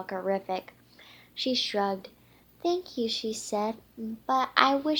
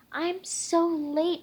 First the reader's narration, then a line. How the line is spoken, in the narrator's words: she exclaimed